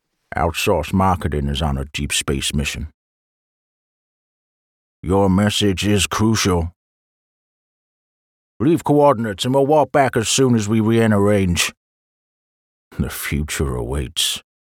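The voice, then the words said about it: Attempted American Doc Holliday accent. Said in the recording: “My voice in my head immediately went to Doc Holliday... I don't have a great American accent, so this could just be ridiculous”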